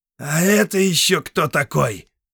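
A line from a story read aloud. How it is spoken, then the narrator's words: Growled. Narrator (Russian): прорычала она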